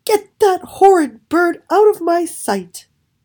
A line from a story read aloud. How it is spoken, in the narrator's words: When the princess saw what he had done, she screamed